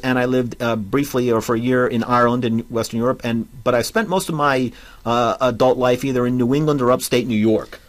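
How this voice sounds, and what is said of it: Strong New Jersey accent. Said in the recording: “I detect not a trace of Oregon in your accent. It sounds pretty thoroughly New Jersey to me. ... Very strong New Jersey accent”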